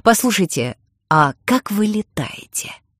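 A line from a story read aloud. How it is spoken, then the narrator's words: Plain. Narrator (Russian): спросил я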